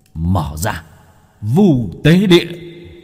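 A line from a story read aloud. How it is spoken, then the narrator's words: Straining shout. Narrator (Vietnamese): Bác cổ cố gắng hét lên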